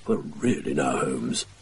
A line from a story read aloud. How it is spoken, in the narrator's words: too quietly to necessitate a reply